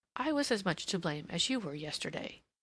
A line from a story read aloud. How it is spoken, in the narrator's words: she said gently